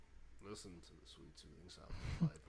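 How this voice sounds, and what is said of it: Smooth radio announcer voice. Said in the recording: “I can do my radio voice.”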